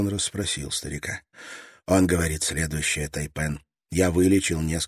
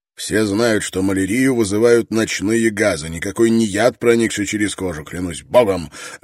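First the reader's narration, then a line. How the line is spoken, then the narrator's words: Barking snap. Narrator (Russian): рявкнул Гордону Строн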